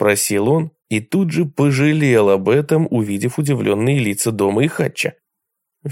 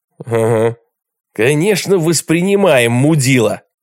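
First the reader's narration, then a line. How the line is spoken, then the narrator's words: Barking snarl. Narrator (Russian): рявкнул Дом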